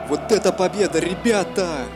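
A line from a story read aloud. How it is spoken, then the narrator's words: Excited exclamation. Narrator (Russian): воскликнул Стрелков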